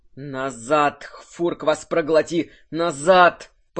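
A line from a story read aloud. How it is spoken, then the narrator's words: Growled. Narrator (Russian): прорычал Кирсан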